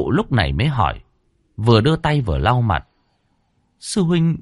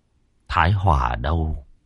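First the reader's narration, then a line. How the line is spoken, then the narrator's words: Muttering. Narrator (Vietnamese): Thái Hưng lẩm bẩm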